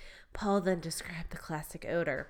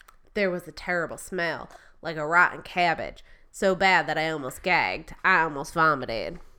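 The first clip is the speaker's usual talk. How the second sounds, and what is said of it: Put-on North Florida accent. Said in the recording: “That's good North Florida accent ... Your Florida accent is spot on.”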